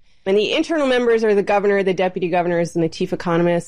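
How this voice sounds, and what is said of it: American accent. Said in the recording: “It could be from outside the country, as you can tell from my accent. ... there's always been an American, actually, on the MPC”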